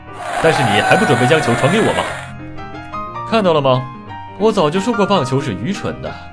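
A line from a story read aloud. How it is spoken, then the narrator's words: Grinning, teasing. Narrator (Chinese): 美国队长咧着嘴笑着说道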